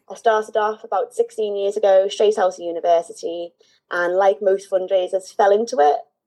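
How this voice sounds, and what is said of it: Liverpool accent. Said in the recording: “I'm from Liverpool, which is normally quite obvious from my accent, although ... a lot of people kind of identify me as Irish”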